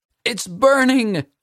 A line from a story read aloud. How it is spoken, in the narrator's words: screamed